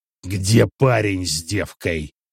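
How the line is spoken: Growled. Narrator (Russian): прорычал Агюст

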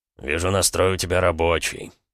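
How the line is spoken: Grumbling. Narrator (Russian): проворчал Суворов

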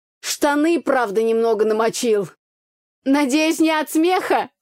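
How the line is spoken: Shouted from offstage. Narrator (Russian): выкрикнул кто-то из-за кулис

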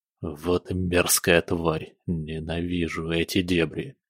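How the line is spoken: Muttered. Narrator (Russian): буркнул

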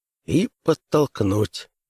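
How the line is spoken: Tense whisper. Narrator (Russian): напряженно прошептал Бакстер

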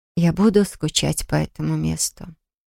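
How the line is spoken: Wistful sigh. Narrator (Russian): вздохнула она

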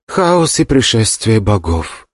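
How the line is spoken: Gloomy reply. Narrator (Russian): мрачно ответила Кинг Джао

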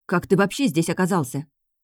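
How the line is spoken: Angry interruption. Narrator (Russian): Злобно перебила я

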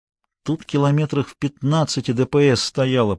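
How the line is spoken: Muttered. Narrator (Russian): пробормотал Гуров

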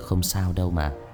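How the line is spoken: Gentle smiling voice. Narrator (Vietnamese): Người thanh niên khẽ mỉm cười rồi nói

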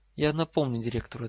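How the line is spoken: Plain. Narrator (Russian): ответил ее голос

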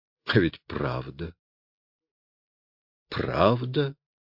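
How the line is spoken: Muttering. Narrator (Russian): бормотал он

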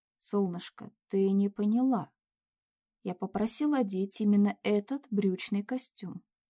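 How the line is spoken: Cold voice. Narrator (Russian): похолодевшим голосом произнес Кирилл

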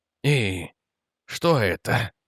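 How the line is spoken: Strained, trembling voice. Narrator (Russian): выдавил он, и голос предательски дрогнул

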